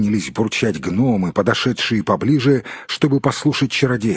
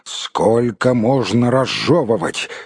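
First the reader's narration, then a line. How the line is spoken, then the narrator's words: Angry exclamation. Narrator (Russian): сердито воскликнул маг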